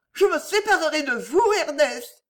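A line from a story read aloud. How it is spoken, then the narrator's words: Cried out. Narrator (French): s'écria Geneviève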